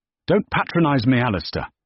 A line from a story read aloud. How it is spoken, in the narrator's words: snapped